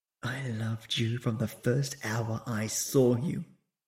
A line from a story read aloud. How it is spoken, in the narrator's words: She whispered into his ear